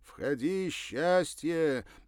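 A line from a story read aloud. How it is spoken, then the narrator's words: Cheerful shout. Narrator (Russian): весело прокричал по-русски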